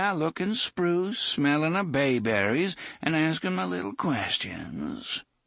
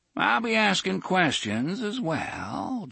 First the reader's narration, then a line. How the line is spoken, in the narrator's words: Jonas said dreamily